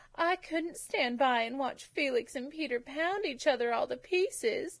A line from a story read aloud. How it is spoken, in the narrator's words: she sobbed